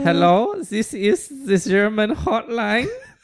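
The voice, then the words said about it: Put-on German accent. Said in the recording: “You gotta do it in a German accent.”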